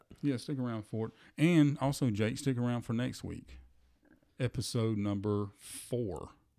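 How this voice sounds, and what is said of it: Southern American accent. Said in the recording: “Dealing with our southern accent.”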